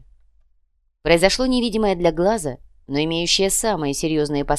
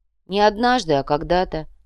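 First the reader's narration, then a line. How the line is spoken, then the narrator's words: Indifferent correction. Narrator (Russian): безразличным тоном поправил у бойца образованная иголка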